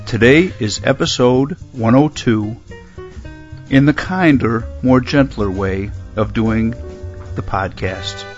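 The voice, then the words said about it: Soft, quiet NPR-style voice. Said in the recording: “NPR voice ... a very quiet podcast”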